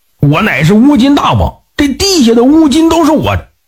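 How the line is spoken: Angry demon. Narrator (Chinese): 这妖魔愤怒地对放牛娃说

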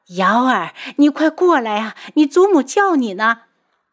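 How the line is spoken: Excited calling. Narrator (Chinese): 韩夫人激动地叫他

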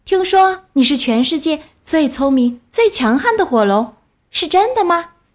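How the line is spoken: Loud shout. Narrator (Chinese): 伊丽莎白大叫

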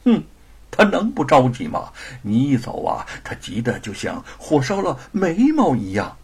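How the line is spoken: Laughing, teasing. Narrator (Chinese): 吴承恩笑着打趣

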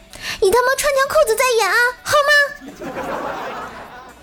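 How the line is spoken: Loud. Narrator (Chinese): 他女朋友大声说道

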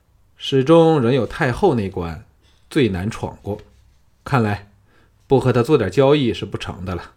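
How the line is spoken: Sighing. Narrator (Chinese): 玄又叹了一口气说

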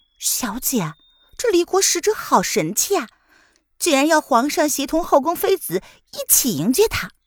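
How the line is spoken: Sighing exclamation. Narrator (Chinese): 瑶儿感叹道

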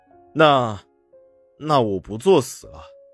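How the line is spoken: Flat, indifferent. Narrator (Chinese): 唐宁淡淡的说道

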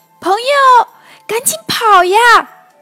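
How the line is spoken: Urgent shout. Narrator (Chinese): 小兔的叫声

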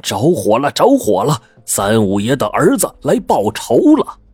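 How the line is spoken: Panicked shouting while running. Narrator (Chinese): 几个工人慌张的逃窜了出来，边跑边喊

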